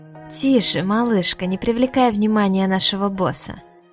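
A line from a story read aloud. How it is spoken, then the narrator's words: Purr into ear. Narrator (Russian): Элиас промурлыкал на ухо Диаре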